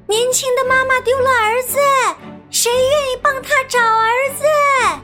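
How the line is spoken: Calling out. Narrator (Chinese): 小白兔仍然一路喊

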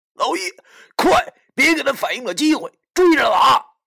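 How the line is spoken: Hurried shout. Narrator (Chinese): 我慌忙对老易大喊道

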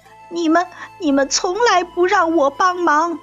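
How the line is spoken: Sobbing. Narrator (Chinese): 鸭子哭哭啼啼地说

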